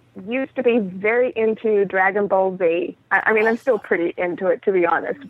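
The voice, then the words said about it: Slight Australian accent. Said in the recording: “accent is not New England. That's an Australian accent, isn't it? ... Teeny. ... cleaned a lot of the accent out of my mouth, but it does pop up on occasion”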